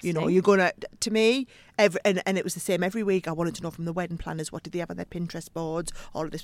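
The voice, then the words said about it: Northeast English accent. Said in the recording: “I just love your accent ... it's so like, endearing ... a proper northeast last through and through”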